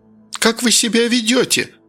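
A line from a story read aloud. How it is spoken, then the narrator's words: Woman crying out. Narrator (Russian): вскрикнула тетка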